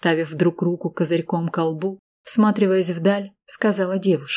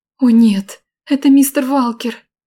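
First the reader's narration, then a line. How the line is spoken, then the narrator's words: Anxious young woman exclaiming. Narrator (Russian): беспокойным голосом воскликнула девушка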